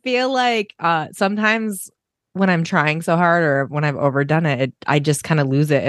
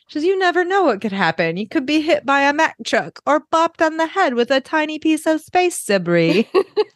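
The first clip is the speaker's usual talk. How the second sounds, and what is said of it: Moira Rose voice impression. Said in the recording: “my Moira accent is good tonight ... she's really good at the Moira voice”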